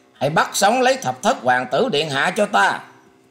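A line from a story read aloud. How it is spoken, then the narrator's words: Shouted command. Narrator (Vietnamese): Ngũ hoàng tử quát rằng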